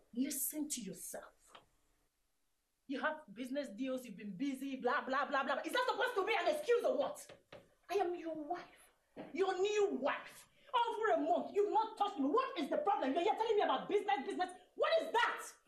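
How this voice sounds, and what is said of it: Raised, angry voice. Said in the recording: “You're raising your voice. ... I am raising my voice because I am angry with you. ... Raising your voice”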